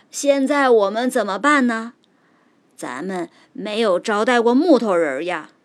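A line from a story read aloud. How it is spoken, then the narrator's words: Old man calling out. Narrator (Chinese): 老人喊了一声，接着说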